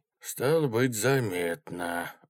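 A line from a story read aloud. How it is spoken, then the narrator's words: Sigh. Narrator (Russian): вздохнул Игнатьич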